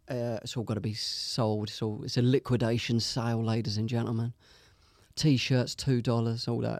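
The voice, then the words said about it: London accent. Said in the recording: “They liked the London accent.”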